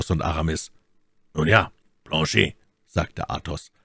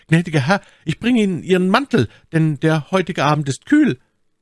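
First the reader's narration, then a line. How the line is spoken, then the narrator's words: Voice calling out. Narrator (German): eine Stimme rief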